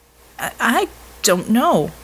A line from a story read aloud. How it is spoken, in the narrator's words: Tesla sputtered